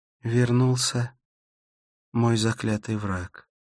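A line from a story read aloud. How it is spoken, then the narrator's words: Sigh. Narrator (Russian): вздохнула она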